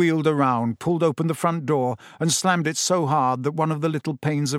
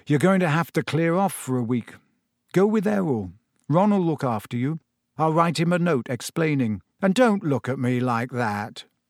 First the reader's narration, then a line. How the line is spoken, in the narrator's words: he said gloomily